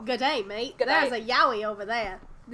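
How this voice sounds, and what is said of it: Weak put-on Australian accent. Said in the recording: “with an Australian accent ... how bad I am at voices ... that started turning into ... Southern”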